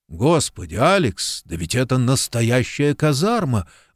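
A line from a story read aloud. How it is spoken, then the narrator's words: Exclamation. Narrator (Russian): воскликнул Куб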